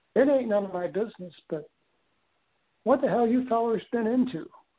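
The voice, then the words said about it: Southern Missouri accent. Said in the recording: “he had this Southern Missouri accent, I guess”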